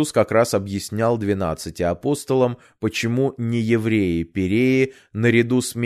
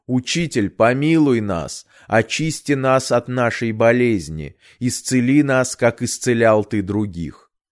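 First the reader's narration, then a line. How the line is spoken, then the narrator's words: Group shouting from afar. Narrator (Russian): прокаженные, не смея подойти к нему, встали вдали и кричали ему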